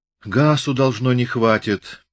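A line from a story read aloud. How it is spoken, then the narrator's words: Regretful sigh. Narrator (Russian): вздохнул кто-то сожалеюще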